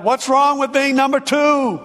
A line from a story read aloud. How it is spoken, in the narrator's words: Maury yelled